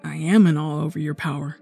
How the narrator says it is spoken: Morgan says quietly

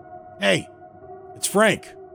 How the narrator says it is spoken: I called out

